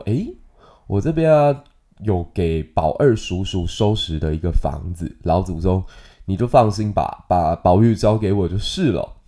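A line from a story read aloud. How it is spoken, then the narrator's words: Smiling. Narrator (Chinese): 秦可卿就笑着说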